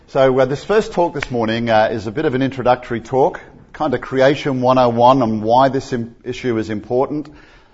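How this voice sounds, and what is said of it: Australian accent. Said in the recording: “I've got a deep southern accent because I'm from Australia ... you need to get used to the Aussie accent”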